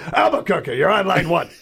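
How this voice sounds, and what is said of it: Imitates another person's voice. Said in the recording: “my Larry King impression”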